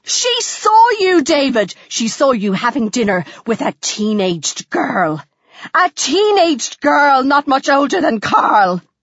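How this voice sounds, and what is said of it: Screaming. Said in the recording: “Would you like to stop screaming for 5 seconds”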